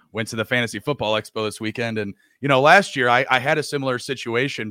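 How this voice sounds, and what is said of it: Worn-out, rough voice. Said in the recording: “This is I was dead at the expo voice... not to have much of my voice box left... definitely not, you know, finely tuned”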